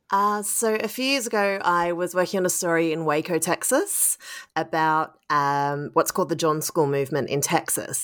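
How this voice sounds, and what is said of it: Australian accent. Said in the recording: “as you can probably hear from my voice, I'm Australian”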